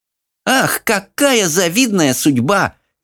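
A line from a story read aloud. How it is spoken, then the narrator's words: Snide exclamation. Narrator (Russian): ехидно воскликнула Марта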